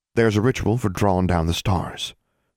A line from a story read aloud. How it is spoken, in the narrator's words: said